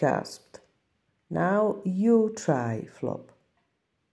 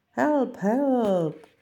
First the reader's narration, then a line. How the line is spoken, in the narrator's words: yelled Flop